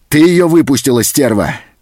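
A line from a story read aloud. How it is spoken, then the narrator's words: Angry shout. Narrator (Russian): закричал он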